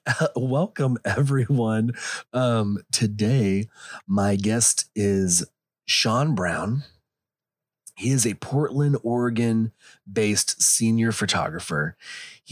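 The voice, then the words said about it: Hoarse, low-register voice, slightly country. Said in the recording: “I found out that I can have a voice that you can understand if I go to my low register, um, which kind of goes a little bit country ... I live in Texas ... if you don't like this accent, I'm sorry. I did not plan to lose my voice”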